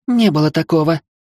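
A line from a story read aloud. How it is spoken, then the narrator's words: Flustered exclamation. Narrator (Russian): воскликнула мигом покрасневшая девушка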